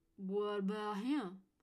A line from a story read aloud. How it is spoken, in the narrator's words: Cadence slurred